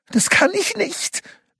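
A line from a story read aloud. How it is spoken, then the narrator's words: Frightened whimper. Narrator (German): wimmerte der verängstigte Kobold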